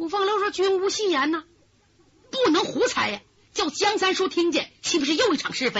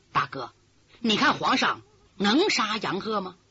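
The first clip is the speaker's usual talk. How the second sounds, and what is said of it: Quiet, hushed question. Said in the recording (Chinese): “小声问”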